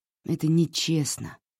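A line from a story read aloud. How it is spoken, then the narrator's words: Sigh. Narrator (Russian): вздохнула Хлоя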